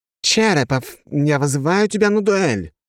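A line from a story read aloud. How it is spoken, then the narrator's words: Exclamation. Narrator (Russian): воскликнул он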